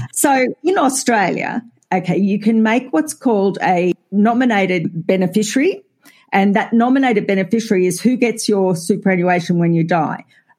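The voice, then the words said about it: Australian accent. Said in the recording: “if people can't tell from our accents ... I think we're fairly identifiable as Australian ... Country girls.”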